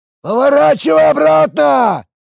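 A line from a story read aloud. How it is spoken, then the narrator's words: Shouting over wind. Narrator (Russian): прокричал он сквозь гудящий ветер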